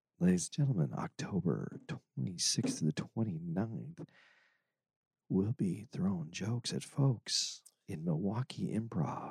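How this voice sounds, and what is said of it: Jazz radio announcer voice. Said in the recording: “I like your radio voice. ... Your jazz radio voice. ... I can do a jazz radio voice.”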